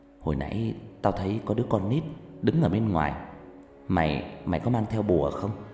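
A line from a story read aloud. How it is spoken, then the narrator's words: Soft, hushed. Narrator (Vietnamese): một người bạn mới khe khẽ nói với anh tôi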